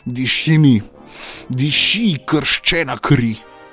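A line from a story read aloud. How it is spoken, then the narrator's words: Screaming. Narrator (Slovenian): je kričal in dejal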